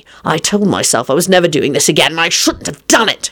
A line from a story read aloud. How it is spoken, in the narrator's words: he snarled